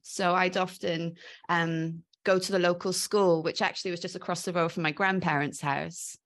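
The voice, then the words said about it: Mixed British accent, slightly Welsh. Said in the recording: “I call my accent a bit of a mongrel accent because quite often people are a bit unsure of what it is. But I agree, there's definite Welshness in it.”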